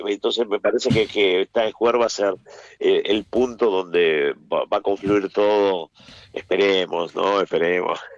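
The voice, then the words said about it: Argentine Spanish accent. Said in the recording (Spanish): “soy muy reconocido acá como argentino... El acento o lo que sea no se puede cambiar”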